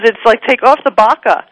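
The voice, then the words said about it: Put-on New York accent. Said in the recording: “I was using my New York accent”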